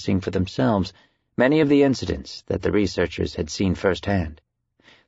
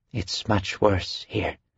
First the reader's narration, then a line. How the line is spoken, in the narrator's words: she said quietly